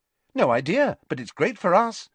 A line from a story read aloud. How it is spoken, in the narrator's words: said Ginny brightly